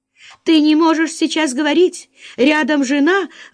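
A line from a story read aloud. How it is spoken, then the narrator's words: Anxious question. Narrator (Russian): взволнованно спросила Оксана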